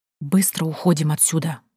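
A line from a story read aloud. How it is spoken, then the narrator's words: Frightened hiss. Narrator (Russian): прошипела я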